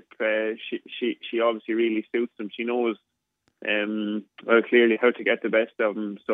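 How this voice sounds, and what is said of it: Speaks with a noticeable accent. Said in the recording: “you got to love that accent. You got to love that accent.”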